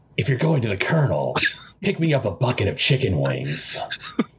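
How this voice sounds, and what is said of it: Solid Snake character impression. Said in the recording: “Snake ... for that wonderful impression ... I'm going to talk like that for the whole episode”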